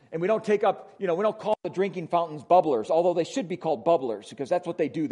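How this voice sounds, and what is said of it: Wisconsin accent. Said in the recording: “my Wisconsin accent”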